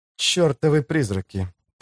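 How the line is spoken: Said through gritted teeth. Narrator (Russian): процедила она

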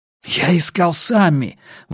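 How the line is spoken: Breathless exhale. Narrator (Russian): выдохнул Рекс

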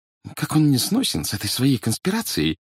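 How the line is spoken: Annoyed mutter. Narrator (Russian): досадливо пробормотала

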